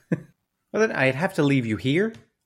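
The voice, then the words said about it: Put-on Irish accent. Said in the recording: “I'm doing an Irish accent and not a New Zealand accent, and it's very tough.”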